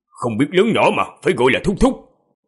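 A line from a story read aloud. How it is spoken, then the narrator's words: Loud scolding shout. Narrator (Vietnamese): Nam tử lớn tiếng quát thiếu nữ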